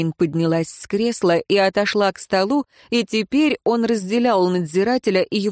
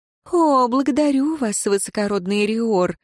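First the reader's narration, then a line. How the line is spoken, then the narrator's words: Honeyed voice, female prisoner. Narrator (Russian): медовым голосом ответила узница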